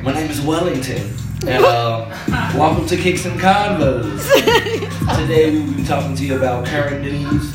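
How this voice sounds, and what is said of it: Put-on radio broadcaster voice. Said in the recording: “Your radio voice? ... I need to get on my broadcasting”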